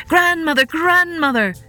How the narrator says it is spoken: they cried

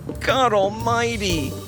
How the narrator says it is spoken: he whimpered

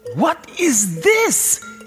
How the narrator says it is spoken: he screeched

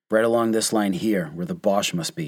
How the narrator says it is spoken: he said

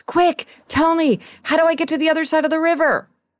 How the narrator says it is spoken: He sees a man standing on the far bank and shouts

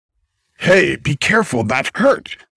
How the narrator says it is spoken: the greyhound barked

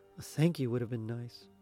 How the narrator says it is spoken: Grumbling to herself, she mumbled softly

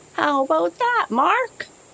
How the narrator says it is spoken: shouted the fisherman

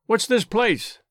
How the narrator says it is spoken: shouted

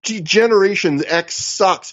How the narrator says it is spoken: Danielson like yells in Aries' face

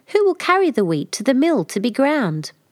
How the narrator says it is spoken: she called out

